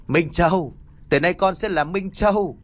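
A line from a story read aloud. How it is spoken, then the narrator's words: Laughing loudly. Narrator (Vietnamese): Thức cười lớn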